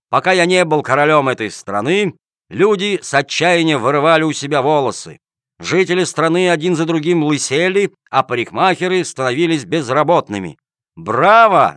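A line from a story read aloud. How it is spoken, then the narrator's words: Shout from crowd. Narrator (Russian): закричал кто-то в толпе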